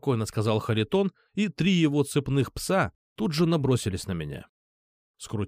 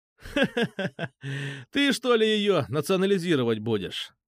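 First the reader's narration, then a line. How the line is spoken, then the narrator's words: Laughing. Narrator (Russian): засмеялся я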